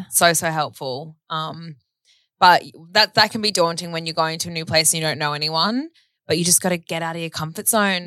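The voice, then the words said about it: Australian accent. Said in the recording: “if you have a different accent, people are going to be kind of like, oh, Australia... people love Aussies... They love our accents... I think we sound absolutely terrible”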